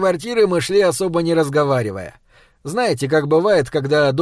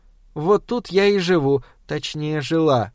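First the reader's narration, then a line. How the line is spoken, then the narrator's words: Sad. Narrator (Russian): грустно сказала Олеся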